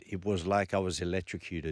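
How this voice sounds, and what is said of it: Put-on French accent. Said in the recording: “That's my French accent.”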